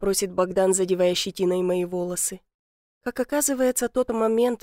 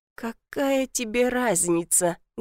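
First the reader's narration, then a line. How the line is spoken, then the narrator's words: Very hoarse. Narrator (Russian): говорю сильно осипшим голосом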